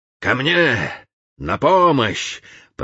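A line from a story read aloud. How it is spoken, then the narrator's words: Booming, exhausted from struggle. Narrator (Russian): прогремел голос Путилина, изнемогавшего от непосильной борьбы с обезумевшим человеком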